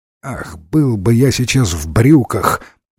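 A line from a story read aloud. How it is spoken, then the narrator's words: Muttered. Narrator (Russian): пробормотал Ренсом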